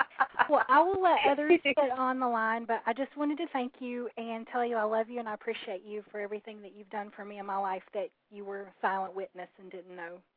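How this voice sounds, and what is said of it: North Carolina accent. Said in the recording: “my North Carolina accent”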